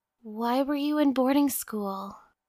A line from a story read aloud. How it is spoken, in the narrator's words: she whispered